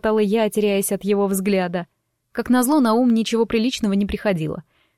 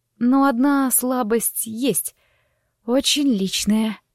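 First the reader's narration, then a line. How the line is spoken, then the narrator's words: Hoarse rasp. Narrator (Russian): прохрипела я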